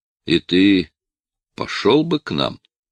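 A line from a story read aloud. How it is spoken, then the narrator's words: Insinuating yet serious question. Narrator (Russian): почему-то вкрадчиво, но серьезным тоном спросил Никитин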